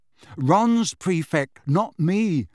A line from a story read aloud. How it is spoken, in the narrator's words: Harry said